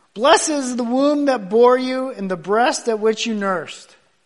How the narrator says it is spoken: a lady in the back yells out

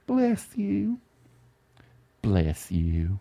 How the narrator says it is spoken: Through her teary eyes, her red, wet eyes ripped out of her skull, says softly

